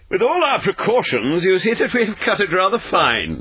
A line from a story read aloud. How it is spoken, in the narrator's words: said Holmes, laughing